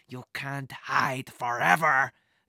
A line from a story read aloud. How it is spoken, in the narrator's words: the man growled